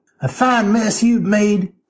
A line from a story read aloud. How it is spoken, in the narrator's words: sneered Zelana